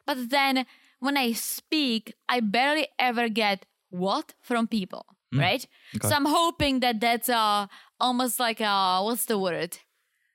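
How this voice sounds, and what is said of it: Speaks with a mild foreign accent. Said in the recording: “I hear my accent when I listen to this podcast ... is my accent milder or stronger? ... You have less of an accent.”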